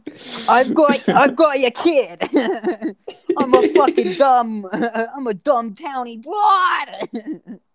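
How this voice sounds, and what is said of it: Blake Lively's townie accent impression. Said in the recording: “She actually had like a really good accent in that movie ... I think Blake Lively was the worst accent in the movie.”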